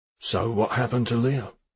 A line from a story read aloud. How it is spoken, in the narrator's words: Blomqvist said gently